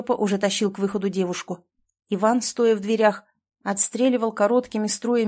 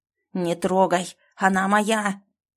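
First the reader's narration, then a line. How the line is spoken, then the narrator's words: Hoarse roar, muffled by fire. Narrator (Russian): Хриплый рев был едва слышен сквозь вой огня и шум в маске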